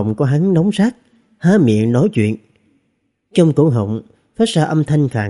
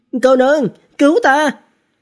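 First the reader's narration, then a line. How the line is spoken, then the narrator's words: Urgent loud call. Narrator (Vietnamese): Trần Thực vội vàng lớn tiếng nói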